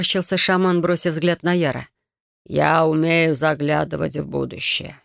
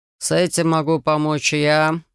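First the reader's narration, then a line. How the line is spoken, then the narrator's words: Smirking snort. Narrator (Russian): хмыкнул Киос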